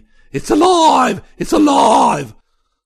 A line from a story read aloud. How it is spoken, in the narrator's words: He went on to scream